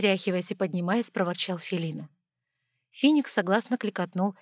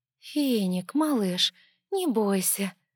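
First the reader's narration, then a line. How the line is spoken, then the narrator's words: Cooing, gentle. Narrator (Russian): проворковала Снежа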